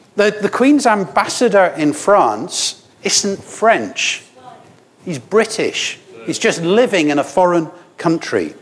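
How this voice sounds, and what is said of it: Scottish accent. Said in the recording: “I know my accent's wrong. I'm Scottish.”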